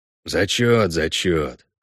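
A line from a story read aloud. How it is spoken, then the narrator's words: Grumble. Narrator (Russian): проворчал Весемир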